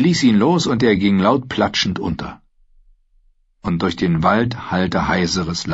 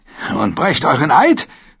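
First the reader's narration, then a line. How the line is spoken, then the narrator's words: Snarled. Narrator (German): fauchte er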